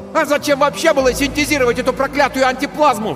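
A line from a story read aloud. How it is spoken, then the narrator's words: Sudden yell. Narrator (Russian): вдруг заорал Тиберий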